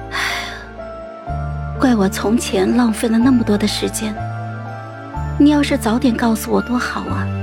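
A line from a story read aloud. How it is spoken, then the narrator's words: Sighing. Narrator (Chinese): 叹气说道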